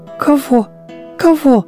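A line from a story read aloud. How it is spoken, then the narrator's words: Anxious, frightened. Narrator (Russian): заволновалась улитка, испуганно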